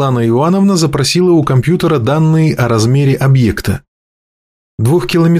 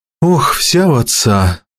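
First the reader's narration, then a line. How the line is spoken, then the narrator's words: Sigh. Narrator (Russian): вздохнула Светлана Ивановна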